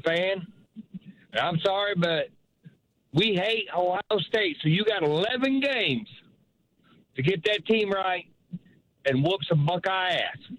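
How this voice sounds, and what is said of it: Southern-sounding American accent. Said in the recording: “I thought my boy ... was from down south. I like that accent. ... as soon as I heard the accent”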